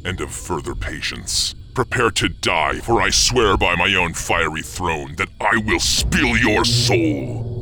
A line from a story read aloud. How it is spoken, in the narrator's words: growled